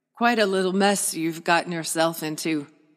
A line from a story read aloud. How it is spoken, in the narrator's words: Uncle Elgort chuckled